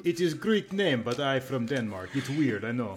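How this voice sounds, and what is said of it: Put-on silly foreign accent. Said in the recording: “talking with that stupid accent”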